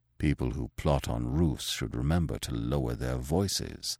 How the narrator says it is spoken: he muttered

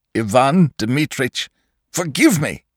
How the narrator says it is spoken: he cried

